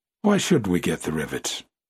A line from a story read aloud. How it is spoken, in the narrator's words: said the Boilermaker in a reasonable tone